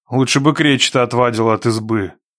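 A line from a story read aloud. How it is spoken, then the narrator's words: Gloomy. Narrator (Russian): мрачно заметил Никита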